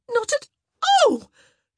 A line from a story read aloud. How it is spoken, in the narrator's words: She let out a squeal as one of his hands found a particularly sensitive spot under her arm